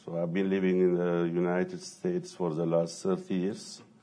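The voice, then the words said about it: Ethiopian accent. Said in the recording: “I have an accent, so I'm originally from Ethiopia.”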